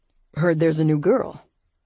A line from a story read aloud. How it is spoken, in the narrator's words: the centermost guy said in a pleasantly deep voice